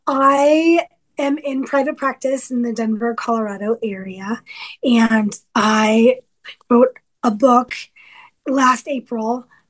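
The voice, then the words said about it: Hoarse, slightly strange-sounding voice. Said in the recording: “I'm recovering from laryngitis, so I sound a little weird”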